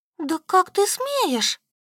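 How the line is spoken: Squeak. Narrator (Russian): пропищала она

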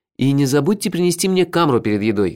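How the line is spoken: Shouting after someone. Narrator (Russian): крикнул я ему вслед

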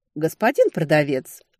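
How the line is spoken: Dry call. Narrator (Russian): сухо позвала я

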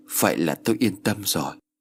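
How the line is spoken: Choked tearful voice. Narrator (Vietnamese): Bác Phụng nghẹn ngào nước mắt rồi nói

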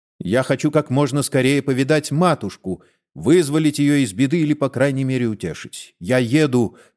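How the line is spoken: Plain. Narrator (Russian): сказал доктор

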